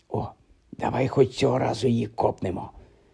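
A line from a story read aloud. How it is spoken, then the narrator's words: Whispered in ear. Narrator (Ukrainian): зашепотів Рон на вухо Гаррі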